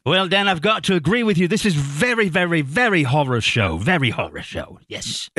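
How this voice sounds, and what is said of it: Put-on distinguished English accent. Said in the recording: “your fine, distinguished English accent ... does a bunch of characters. And his English character, Niles, is one of them ... pseudo-sophisticated ... Very well done”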